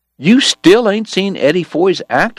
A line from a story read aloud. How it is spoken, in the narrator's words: Morgan cried around a mouthful of deer meat